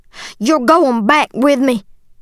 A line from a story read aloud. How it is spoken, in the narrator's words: he yelled